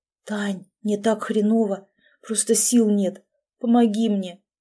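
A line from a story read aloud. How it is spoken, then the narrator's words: Whispered into ear. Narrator (Russian): зашептал в ухо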